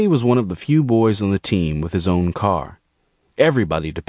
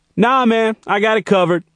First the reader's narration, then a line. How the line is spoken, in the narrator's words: Gerald yelled back